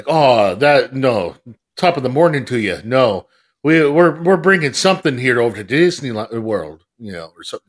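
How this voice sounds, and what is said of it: Bad Irish accent, sounds Canadian. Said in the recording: “That was a terrible accent. ... That sounded a lot more Canadian.”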